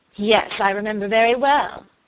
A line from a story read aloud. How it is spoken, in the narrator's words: answered Lucy Audley, with a bitter laugh